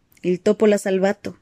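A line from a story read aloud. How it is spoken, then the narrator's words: Plain. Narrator (Spanish): dijo el paramédico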